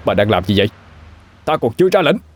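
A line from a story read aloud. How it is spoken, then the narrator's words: Loud shout. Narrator (Vietnamese): Kim Kha hét lớn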